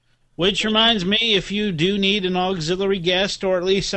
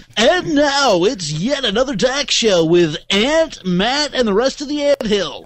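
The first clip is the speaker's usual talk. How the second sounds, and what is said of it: Radio announcer voice. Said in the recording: “a radio announcer voice”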